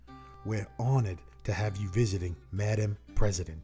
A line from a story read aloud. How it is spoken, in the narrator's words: the mayor replied in a deep voice